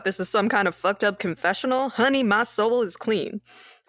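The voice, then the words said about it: Put-on accent. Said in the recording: “I don't know where that accent came from, but it did.”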